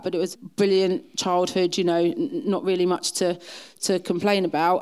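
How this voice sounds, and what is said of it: Essex twang. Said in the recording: “I think that's where the twang comes from ... Essex”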